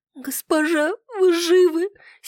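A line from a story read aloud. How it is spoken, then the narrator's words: Whispered with a soft sob. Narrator (Russian): с тихим всхлипом прошептала Нетта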